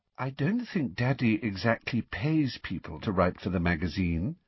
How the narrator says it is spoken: said Luna dreamily

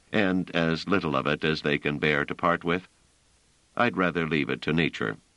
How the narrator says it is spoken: said Trevise dryly

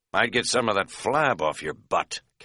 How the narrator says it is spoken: Katz muttered privately

